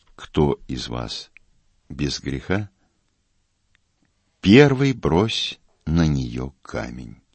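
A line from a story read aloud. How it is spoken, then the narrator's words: Calm, the Lord speaking. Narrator (Russian): великий Господь наш спокойно произнес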